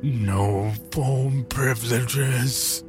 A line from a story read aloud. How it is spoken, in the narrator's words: groaned, sounding as if the words were bubbling through a mouthful of something